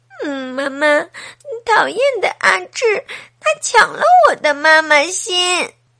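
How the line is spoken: Crying child. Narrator (Chinese): 小苹果一边走一边哭

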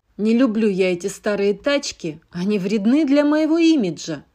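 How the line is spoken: Grumbling. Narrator (Russian): проворчал гонщик

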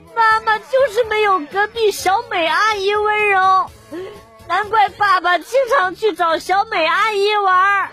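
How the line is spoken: Tearful sobbing. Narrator (Chinese): 他就流着眼泪，抽泣着说

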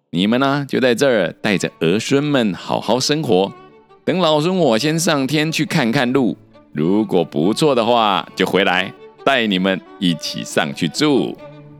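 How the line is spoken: Instructing. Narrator (Chinese): 吩咐四健将说

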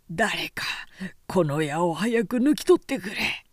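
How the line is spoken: Screaming in pain. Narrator (Japanese): と悲鳴を上げてもがいていた

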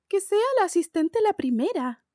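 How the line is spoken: Exclaimed. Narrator (Spanish): exclamó

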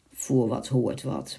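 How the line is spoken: Muttering. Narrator (Dutch): mompelde de ridder

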